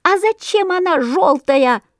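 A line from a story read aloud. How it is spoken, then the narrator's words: Chorus of squeaks. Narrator (Russian): запищали разом все воробьи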